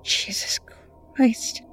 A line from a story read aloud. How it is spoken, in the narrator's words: he whispered